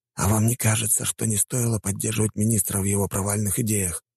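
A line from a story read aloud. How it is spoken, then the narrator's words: Quiet. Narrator (Russian): тихо проговорил полковник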